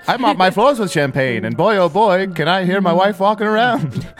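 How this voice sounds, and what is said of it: Put-on Champagne, Illinois accent. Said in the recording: “Champagne, Illinois ... this is the accent we've all chosen.”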